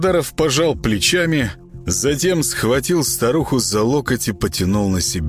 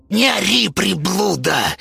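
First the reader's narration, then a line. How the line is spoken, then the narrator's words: Hissed. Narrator (Russian): прошипела Зинаида Петровна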